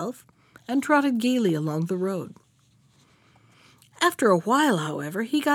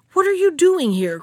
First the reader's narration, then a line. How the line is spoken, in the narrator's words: cried the bear